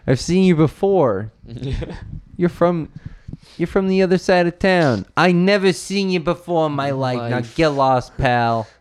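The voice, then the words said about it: Put-on New York accent. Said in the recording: “Why do you have a New York accent?”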